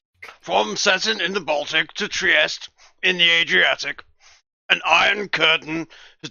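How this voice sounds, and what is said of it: Bad Winston Churchill impression. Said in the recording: “your bad Churchill impression”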